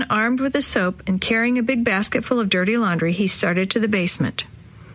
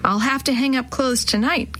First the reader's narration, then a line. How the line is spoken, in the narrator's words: Ken sighed again